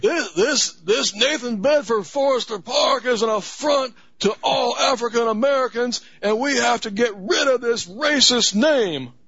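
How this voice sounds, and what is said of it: Imitates another person's voice. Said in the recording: “you have a pretty good Al Sharpton accent.”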